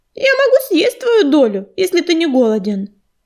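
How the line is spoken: Cheerful, playful. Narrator (Russian): добавила она, весело сверкая глазами

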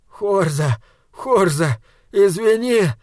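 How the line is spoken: Sobbing voice. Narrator (Russian): раздался рыдающий голос Мипа

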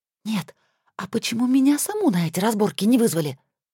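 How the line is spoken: Indignant whisper. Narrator (Russian): возмущенно прошептала я

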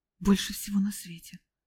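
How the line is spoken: Strained, forced out. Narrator (Russian): выдавил Лютик

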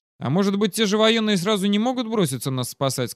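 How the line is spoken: Plain. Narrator (Russian): сказал подошедший Фраерман

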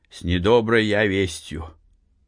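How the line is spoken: Old man's trembling voice. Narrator (Russian): дрогнувшим голосом сказал старик

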